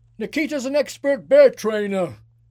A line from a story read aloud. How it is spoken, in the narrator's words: he shouted over his shoulder